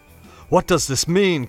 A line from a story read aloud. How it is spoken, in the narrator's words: cried Howard at last